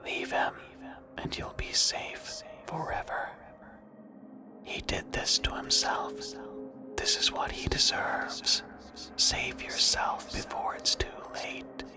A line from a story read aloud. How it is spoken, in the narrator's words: She whispered